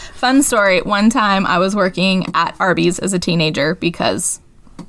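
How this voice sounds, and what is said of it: Usual voice. Nothing is said of it.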